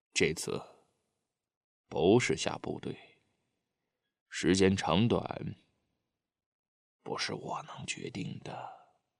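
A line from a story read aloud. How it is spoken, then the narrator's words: Deliberately slow. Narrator (Chinese): 孔德武故意说的慢吞吞的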